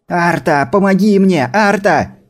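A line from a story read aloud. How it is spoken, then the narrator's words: Scream. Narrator (Russian): закричала Крисла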